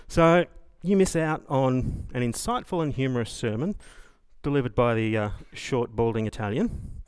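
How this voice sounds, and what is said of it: Southeast Australian accent. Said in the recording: “Melburnian with southeast Aussie accent”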